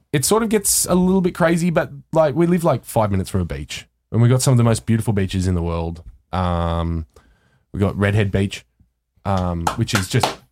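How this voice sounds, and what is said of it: Speaks with a strong regional accent. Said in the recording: “Your accent makes it sound like you're saying something else”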